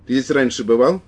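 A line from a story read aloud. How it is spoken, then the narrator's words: Sharp question. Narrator (Russian): спросил он резко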